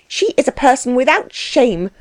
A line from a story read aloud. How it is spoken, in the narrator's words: cried his wife